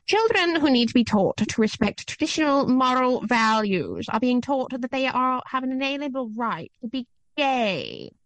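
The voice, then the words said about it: Imitates another person's voice, put-on accent. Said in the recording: “Margaret Thatcher. I don't know what she sounds like, but I'm gonna do this accent.”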